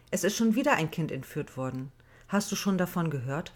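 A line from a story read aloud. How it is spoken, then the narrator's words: Plain. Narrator (German): fragte Maja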